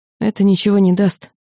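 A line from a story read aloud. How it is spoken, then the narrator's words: Sigh. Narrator (Russian): вздохнула Лина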